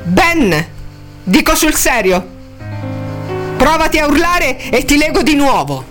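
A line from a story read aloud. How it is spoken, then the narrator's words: Shouted. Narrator (Italian): gli gridò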